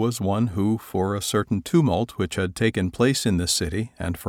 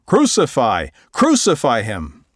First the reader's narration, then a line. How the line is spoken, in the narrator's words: they cried out in reply, saying